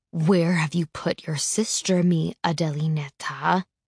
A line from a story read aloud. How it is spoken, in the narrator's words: He asks in his eerie, quiet voice